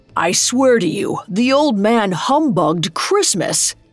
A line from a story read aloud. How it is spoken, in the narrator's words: he exclaimed